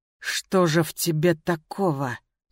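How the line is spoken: Quiet. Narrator (Russian): тихо произнес он

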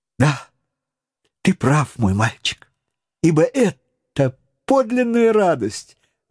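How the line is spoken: Enthusiastic exclamation. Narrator (Russian): воодушевленно воскликнул Паганель

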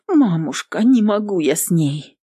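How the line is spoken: Sighing. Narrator (Russian): Вздохнула Нютка

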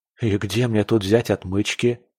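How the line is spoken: Mutter. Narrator (Russian): пробормотал он

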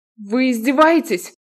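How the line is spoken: Shouting. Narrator (Russian): крикнула Крита

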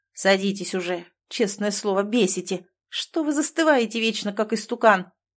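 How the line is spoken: Grumbling again. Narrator (Russian): Снова разворчался номер 8

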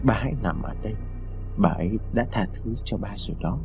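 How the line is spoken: Soft murmur. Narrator (Vietnamese): khẽ nói

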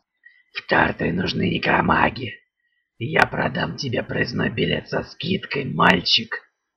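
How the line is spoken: Hoarse. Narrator (Russian): произнес страж хрипло

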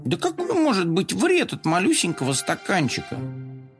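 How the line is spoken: Grumbling. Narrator (Russian): Коржик проворчал

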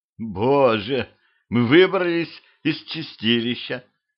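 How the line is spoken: Groaning. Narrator (Russian): простонала Дуся

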